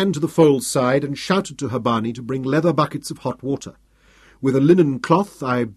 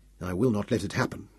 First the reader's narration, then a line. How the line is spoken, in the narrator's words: I swore grimly